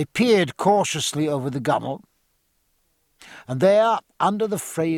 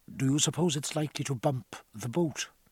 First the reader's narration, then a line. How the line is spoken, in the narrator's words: asked Martin in a low voice